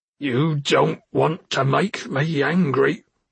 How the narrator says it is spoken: spat

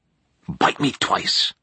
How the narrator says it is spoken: Nora whispered

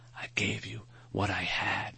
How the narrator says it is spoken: he whispered

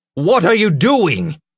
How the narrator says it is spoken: Ulfgar cried

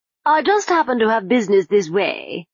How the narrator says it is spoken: he began, smiling brightly

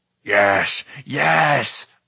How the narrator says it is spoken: Gurgi cried

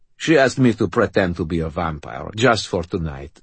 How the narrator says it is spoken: he said

